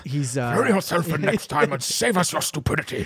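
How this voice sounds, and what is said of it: Good impression of a character. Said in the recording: “That was a really good impression.”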